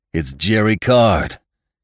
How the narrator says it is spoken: he exclaimed instantly

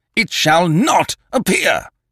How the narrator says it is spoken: cried

